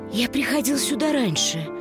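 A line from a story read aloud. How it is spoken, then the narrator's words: Whisper. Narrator (Russian): прошептал Макс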